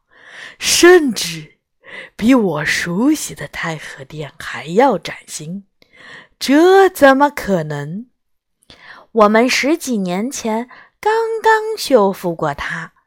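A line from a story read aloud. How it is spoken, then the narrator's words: Admiring. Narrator (Chinese): 白大人赞叹道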